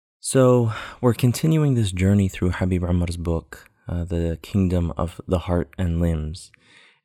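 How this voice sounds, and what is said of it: Quiet, low, hushed voice. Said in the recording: “my voice is a little bit low ... trying not to wake up my son ... kind of hard to hear”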